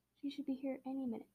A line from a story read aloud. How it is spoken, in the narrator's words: Stephanie said